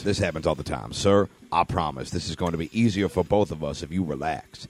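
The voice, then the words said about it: Sensual, smoky voice. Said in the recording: “I smoked a pack of cloves a day for 27 years, and it just sounds like this now ... my voice is so naturally sensual”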